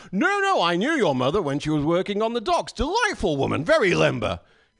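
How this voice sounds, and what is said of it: British accent. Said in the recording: “you all think British cooking ... I can say anything in this accent and it sounds nice ... It sounds nice”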